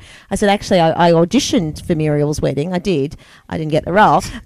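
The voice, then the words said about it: Australian accent. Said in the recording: “the Australianness ... heard my accent”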